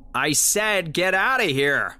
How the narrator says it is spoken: I shouted

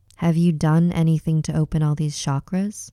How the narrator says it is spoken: he asked

